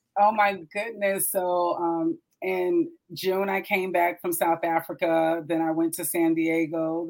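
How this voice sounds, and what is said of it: Raspy voice. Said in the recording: “Still trying to nurture my voice. My throat has been a little raspy for like 2 weeks.”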